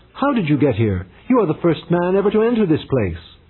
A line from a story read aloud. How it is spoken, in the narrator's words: the woman looked up and cried